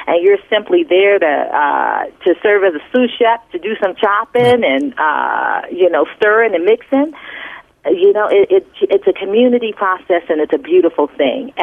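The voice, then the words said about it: New Orleans accent. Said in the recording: “your New Orleans accent comes out.”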